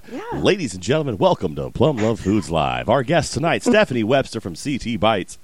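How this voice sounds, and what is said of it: Announcer-style radio voice. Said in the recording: “my radio voice ... You actually have a pretty good radio voice ... It's very impressive.”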